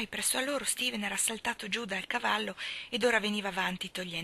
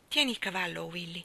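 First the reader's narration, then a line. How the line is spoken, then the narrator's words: Plain. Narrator (Italian): disse Mrs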